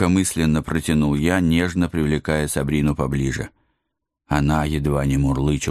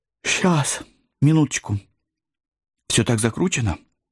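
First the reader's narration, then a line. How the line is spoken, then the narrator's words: Languid sigh. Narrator (Russian): Томно вздохнула гроза вампиров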